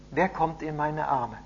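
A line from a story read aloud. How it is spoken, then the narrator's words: Joyful laughing call. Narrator (German): lachte Annika fröhlich entgegen und rief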